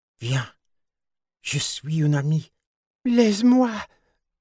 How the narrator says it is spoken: cried

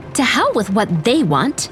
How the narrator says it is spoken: Elsie snapped

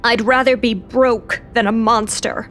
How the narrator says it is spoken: Lou growled

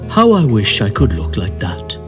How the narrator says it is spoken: sighed

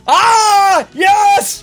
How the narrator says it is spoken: Oscar, feeling this, yelled

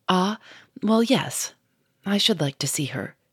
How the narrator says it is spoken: He said in a decided tone

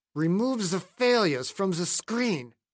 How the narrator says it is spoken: Ruhmkorff said through clenched teeth

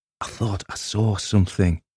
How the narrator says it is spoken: whispered

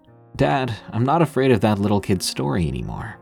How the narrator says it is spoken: I laughed and said

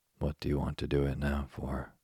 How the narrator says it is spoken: she said

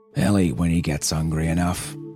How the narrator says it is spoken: he growled

